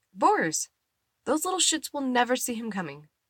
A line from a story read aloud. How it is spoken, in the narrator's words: Eddie exclaims